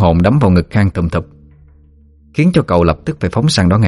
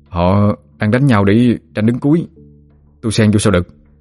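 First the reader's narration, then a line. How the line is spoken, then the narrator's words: Stammering question. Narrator (Vietnamese): Khang ấp úng hỏi lại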